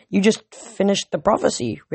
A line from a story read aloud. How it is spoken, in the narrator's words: Rachel stammered